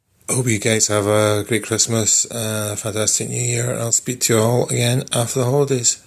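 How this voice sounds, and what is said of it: Scottish accent. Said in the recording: “Definitely Scottish. That's definitely Scottish accent.”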